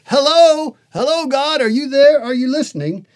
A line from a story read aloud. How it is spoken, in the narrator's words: to a shout for help in a tumultuous way